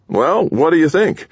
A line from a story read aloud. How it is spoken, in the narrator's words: Winter said nervously